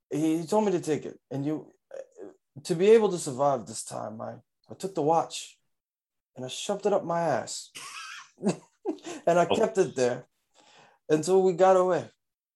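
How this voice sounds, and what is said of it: Christopher Walken impression. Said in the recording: “my impression of Chris. I mean, Christopher Walken ... his voice, his cadence, everything about him”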